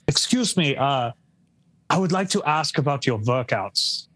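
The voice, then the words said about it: Put-on German accent. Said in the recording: “I'm going to do the accent. ... You have my permission as a full German.”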